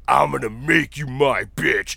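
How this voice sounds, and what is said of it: Very deep imitated voice. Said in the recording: “Like, real deep voice.”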